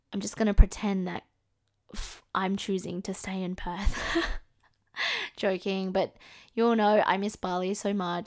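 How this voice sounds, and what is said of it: Australian accent. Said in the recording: “can't tell by my accent, I am from Australia”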